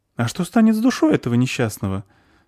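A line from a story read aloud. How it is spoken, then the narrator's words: Frightened question. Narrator (Russian): спросила испуганно Зверушка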